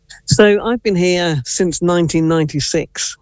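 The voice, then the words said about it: English accent. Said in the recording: “Based off your accent, I wonder, were you maybe born in England? ... I was born in Nottingham.”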